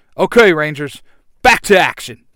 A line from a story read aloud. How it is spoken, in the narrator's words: Jason yells